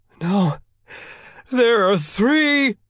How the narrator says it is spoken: the minister cried, tears flowing from his face

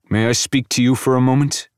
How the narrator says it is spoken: He asks Devin tightly

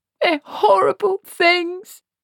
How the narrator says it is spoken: Esk sobbed

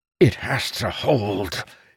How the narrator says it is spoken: he growled, fighting against the sharp pains

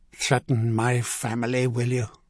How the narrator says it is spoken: he hissed

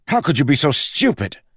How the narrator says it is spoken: he snapped, his voice rising

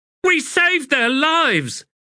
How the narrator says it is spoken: blurted the standard bearer, his face flushed

